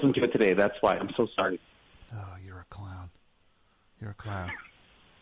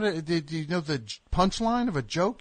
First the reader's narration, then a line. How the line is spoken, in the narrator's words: You scream